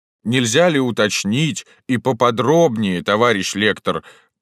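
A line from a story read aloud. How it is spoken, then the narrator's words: Booming drone. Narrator (Russian): прогудел ветеран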